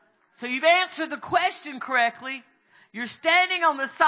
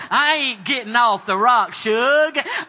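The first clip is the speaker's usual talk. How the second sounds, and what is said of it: Put-on Southern drawl. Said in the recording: “say it in your best southern drawl.”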